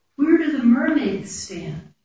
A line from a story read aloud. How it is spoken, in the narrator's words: A small child, she asked in a small, concerned voice